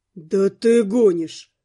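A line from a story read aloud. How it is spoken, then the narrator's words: Stunned breathless exclamation. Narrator (Russian): выдохнул добровольный помощник ошарашенно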